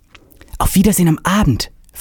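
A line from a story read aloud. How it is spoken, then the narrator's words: Whispering. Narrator (German): flüsterte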